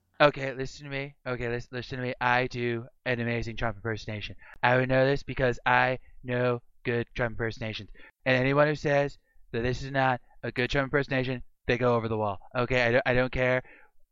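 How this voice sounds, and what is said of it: Donald Trump impression. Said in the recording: “I'm breaking out the Trump impersonation. ... I do a good one too ... he does a like Trump impression”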